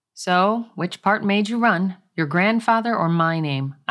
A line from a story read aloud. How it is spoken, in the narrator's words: I asked calmly